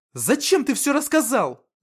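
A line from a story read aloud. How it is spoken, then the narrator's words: Angry question. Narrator (Russian): зло спросила она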